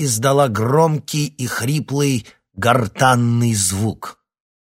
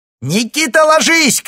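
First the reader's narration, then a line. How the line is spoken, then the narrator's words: Young woman shouting. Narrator (Russian): крикнула девушка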